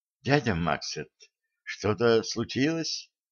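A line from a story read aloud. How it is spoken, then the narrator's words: Quiet question. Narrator (Russian): тихо спросила Женька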